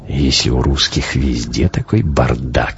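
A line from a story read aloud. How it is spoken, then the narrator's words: Snort. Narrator (Russian): хмыкнул Хаген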